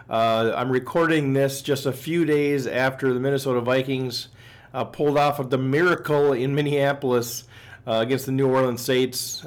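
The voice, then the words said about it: Slightly raspy, hoarse voice. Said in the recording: “apologize for my voice. I'm a little bit rasp ... celebrating. And so my voice is a little bit off”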